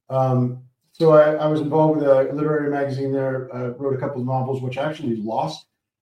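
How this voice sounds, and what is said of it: American accent. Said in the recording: “as you can hear from my accent, I'm from the US”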